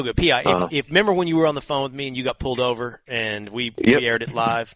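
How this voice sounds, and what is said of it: Slight Texas twang. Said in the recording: “you got that little Texas twang”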